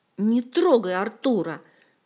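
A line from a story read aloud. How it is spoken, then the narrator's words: Growled. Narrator (Russian): прорычала Ольга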